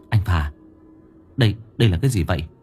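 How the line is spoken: Low whisper. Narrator (Vietnamese): Tôi hạ thấp giọng thì thào

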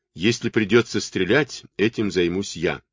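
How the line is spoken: Plain. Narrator (Russian): сказал Кэт

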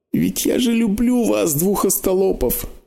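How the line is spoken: Sobbing. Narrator (Russian): всхлипывала она

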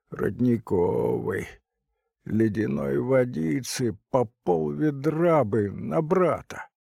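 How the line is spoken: Creaky voice, lip-smacking. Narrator (Russian): кто-то звучно почмокал губами, сказал скрипучим голосом

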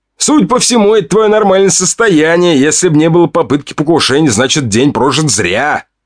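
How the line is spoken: Chuckling. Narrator (Russian): хохотнул блондин

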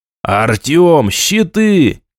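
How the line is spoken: Shout into ear. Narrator (Russian): крикнул я в ухо другу, не слыша себя

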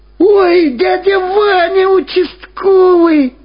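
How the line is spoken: Joyful shout. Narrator (Russian): радостно закричал Владик

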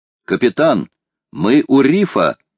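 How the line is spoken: Exclamation. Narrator (Russian): воскликнул Джон

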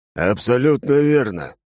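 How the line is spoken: Male barking. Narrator (Russian): рявкнул он

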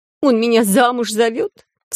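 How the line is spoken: Sobbing. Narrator (Russian): всхлипнула Вики после убойной дозы успокоительного чая с водкой

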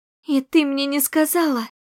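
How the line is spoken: Near-sobbing question. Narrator (Russian): спросила, едва не всхлипывая

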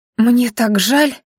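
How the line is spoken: Sincere breathy sigh. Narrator (Russian): искренне выдохнула госпожа Лоэзия

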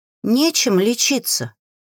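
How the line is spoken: Quiet woman. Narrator (Russian): тихо произнесла одна из женщин

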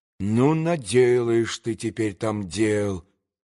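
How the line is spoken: Muttering to himself. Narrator (Russian): пробормотал про себя Петр Ильич

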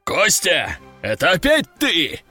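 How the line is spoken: Roaring. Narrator (Russian): взревел генерал

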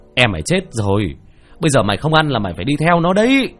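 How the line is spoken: Shouting. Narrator (Vietnamese): hét lên

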